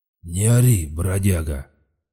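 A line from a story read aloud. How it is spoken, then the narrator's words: Hoarse rumble. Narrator (Russian): хрипло пророкотал хозяин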